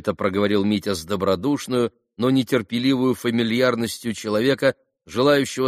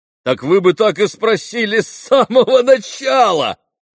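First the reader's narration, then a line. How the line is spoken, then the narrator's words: Loud laughter. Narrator (Russian): громко рассмеялся Митя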